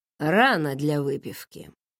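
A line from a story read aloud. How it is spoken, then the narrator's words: Dry. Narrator (Russian): сухо ответил тот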